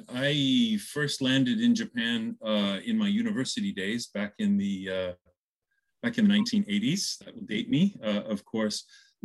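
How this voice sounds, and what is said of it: American accent. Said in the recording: “You can hear from the accent. I'm from the U.S.”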